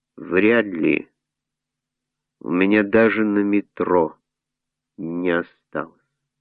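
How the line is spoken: Calm blissful reply. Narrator (Russian): И Люсьен, полный неги, спокойно ответил

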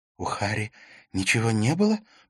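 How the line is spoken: Whispered. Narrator (Russian): прошептала Катрина

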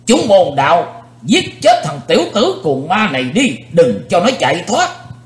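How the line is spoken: Loud shout. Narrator (Vietnamese): lão nhân gầy ốm quát to

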